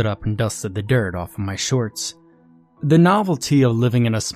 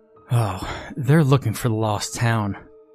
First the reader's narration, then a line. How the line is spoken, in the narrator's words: sighed regretfully